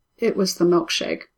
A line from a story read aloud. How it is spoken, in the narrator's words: she says softly